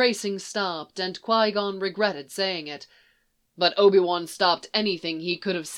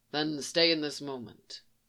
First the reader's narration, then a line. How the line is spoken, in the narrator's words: Qui-Gon rumbled